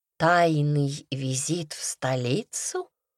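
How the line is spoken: Purring. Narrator (Russian): мурлыкнула я

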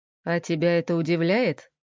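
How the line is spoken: Snorting man. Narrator (Russian): хмыкнул мужик

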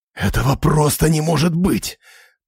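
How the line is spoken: Hissing. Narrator (Russian): прошипел я

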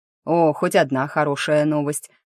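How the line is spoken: Pleased snort. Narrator (Russian): хмыкнул Заву

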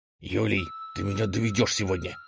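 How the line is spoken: Ruler's hissed reply. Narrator (Russian): прошипел в ответ правитель

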